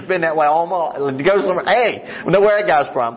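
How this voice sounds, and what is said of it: West Virginia accent. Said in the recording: “it's hard for me to go anywhere and them not know my accent. Hey, this guy's from West Virginia.”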